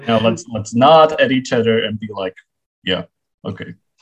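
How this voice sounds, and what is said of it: Very deep character voice. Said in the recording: “I don't know why I'm speaking with such a deep voice for Rexy ... Maybe female dinosaurs have a voice this deep.”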